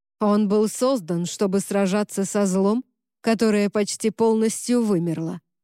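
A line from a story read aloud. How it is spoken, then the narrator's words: Plain. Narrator (Russian): ответил Монтень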